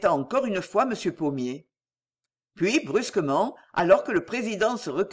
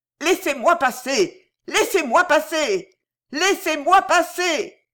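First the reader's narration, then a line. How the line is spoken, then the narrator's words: Shouting. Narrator (French): criait-il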